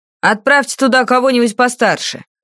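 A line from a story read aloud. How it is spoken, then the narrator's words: Sharp bark. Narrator (Russian): рявкнул Таупан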